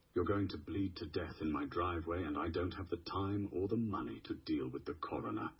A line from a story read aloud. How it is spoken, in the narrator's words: Sylvie said, her voice betraying none of the fear icing her veins